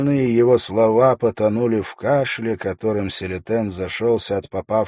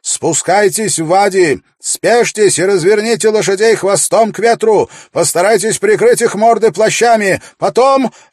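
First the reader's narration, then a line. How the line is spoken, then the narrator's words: Muffled shouted commands. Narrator (Russian): Завязав хифию вокруг лица, Селитен прокричал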